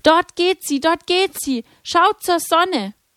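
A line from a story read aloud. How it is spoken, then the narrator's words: Calling out excitedly. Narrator (German): rief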